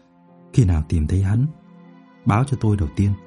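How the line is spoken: Quiet. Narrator (Vietnamese): Đỗ Ninh nói khẽ

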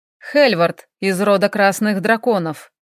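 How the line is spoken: Matter-of-fact tone. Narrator (Russian): будничным тоном произнес Хелл

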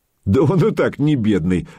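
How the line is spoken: Laughing. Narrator (Russian): засмеялся Богуслав

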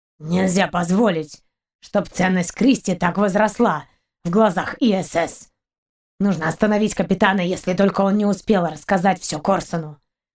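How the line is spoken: Grim growl. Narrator (Russian): Мрачно зарычал пес

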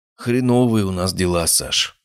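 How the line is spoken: Heavy sigh. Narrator (Russian): начал Виктор Сергеевич и тяжко вздохнул

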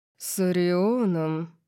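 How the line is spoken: Growled. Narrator (Russian): Калиб зарычал

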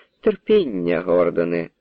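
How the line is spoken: Laughing hostess. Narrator (Ukrainian): засміялася господиня

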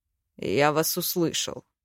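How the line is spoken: Male, through teeth. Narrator (Russian): процедил он сквозь зубы

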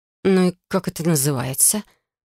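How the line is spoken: Grumbled. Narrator (Russian): проворчала я

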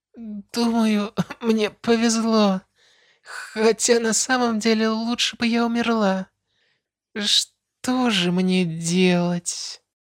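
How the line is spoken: Tearful distressed moan. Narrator (Russian): Простонала с полными слез глазами, явно расстроившись еще сильнее

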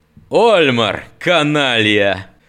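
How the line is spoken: Loud laughter. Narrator (Russian): Над хохотал

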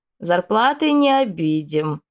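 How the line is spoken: Creaky voice. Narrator (Russian): проскрипела леди Шайда

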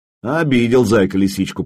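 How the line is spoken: Grumbling. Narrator (Russian): проворчал я

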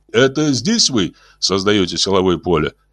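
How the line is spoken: Plain. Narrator (Russian): спросил Орлов

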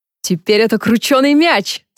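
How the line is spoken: Laughing. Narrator (Russian): засмеялся Люк

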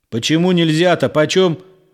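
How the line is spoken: Yelling into phone. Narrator (Russian): орал он в трубку

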